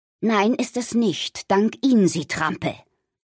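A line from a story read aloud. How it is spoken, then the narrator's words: Grandmother replying. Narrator (German): antwortete die Omi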